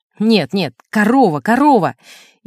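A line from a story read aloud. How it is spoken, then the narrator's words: Irritated interruption. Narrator (Russian): Он раздраженно прерывал меня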